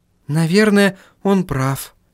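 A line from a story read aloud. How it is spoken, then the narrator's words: Sighed. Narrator (Russian): вздохнула Сахариса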